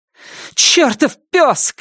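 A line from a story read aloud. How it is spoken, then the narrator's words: Shouting woman. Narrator (Russian): крикнула она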